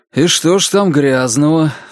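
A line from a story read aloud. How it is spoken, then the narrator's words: Sighing. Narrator (Russian): вздохнул Джейк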